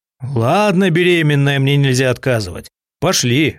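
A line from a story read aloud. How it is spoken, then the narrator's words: Snorting smirk. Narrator (Russian): хмыкнул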